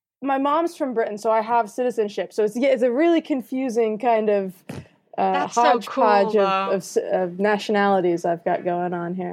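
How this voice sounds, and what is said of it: American accent. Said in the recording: “has got an American accent”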